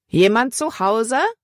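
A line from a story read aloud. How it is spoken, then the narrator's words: Calling again. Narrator (German): rief Libby erneut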